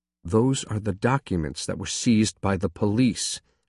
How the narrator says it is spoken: I said quietly

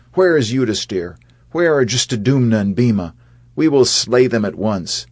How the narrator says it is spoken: They cried out

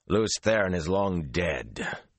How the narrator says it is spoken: he said harshly

